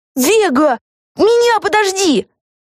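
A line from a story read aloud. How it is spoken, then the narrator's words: Yelling. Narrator (Russian): завопила Люси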